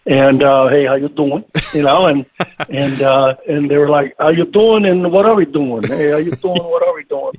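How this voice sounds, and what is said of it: Heavy New York accent. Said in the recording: “with a very heavy New York accent”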